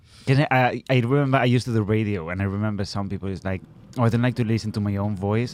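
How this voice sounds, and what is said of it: Attractive voice with foreign accent. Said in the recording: “you have an incredibly sexy voice ... accent”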